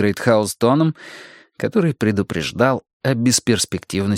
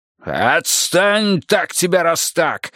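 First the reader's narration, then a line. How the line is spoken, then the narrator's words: Barked. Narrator (Russian): рявкнул тот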